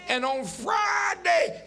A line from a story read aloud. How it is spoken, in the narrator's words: they shouted